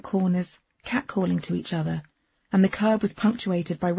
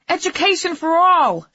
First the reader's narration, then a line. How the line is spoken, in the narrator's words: she yelled